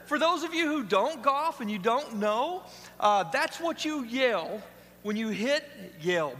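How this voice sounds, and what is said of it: Southern-sounding pronunciation of 'yell'. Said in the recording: “Boy, that sounded southern, didn't it?”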